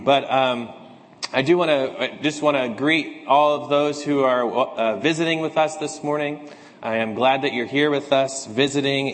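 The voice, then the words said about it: Slightly raspy, hoarse voice. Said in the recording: “my voice is a little raspy this morning ... try to get through this sermon and don't lose my voice”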